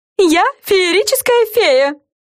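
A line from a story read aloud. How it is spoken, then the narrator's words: Shouting. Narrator (Russian): закричала Френ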